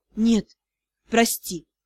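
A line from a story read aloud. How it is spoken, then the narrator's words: Hoarse, confident. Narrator (Russian): Хриплый голос, но полный уверенности в своем решении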